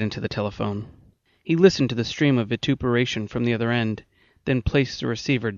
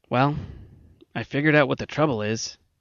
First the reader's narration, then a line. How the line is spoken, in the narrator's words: McIntyre said gloomily, with the air of a man who knows just how he blew up the earth after it was too late